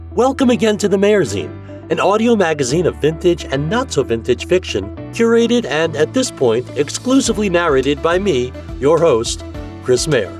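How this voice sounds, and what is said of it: Put-on radio announcer voice. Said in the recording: “I'm still using my radio voice, and eventually this will sound natural”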